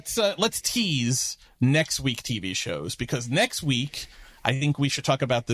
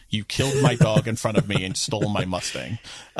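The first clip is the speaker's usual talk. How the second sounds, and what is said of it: John Wick movie character impression. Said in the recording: “That's my John Wick impression from the first movie.”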